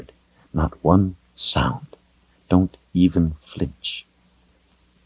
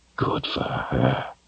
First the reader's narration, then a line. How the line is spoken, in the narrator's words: he whispered to no one in particular